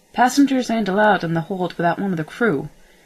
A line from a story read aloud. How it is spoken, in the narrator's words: snapped Mel